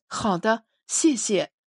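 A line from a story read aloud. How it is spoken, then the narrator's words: Calm. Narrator (Chinese): 司马笑欧恢复了平静，说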